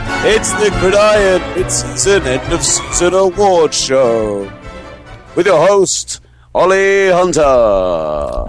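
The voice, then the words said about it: Silly announcer voice. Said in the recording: “the announcement man because I can do that silly voice”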